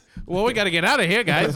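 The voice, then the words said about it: Old-timey 1920s comedic accent. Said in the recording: “a 20s accent ... I was going towards Three Stooges”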